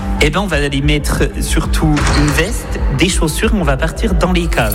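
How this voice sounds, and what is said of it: Franc-comtois regional French accent. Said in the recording (French): “il y aura mon accent ... charmant franc-comtois, comme vous avez pu l'entendre”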